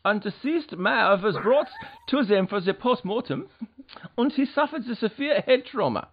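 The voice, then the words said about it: Put-on camp German accent. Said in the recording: “my gay German accent”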